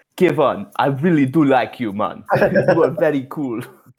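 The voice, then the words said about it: Put-on white South African accent. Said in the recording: “they almost sound Australian, like British ... Australian, that British kind of mixed together almost ... It's a cool accent”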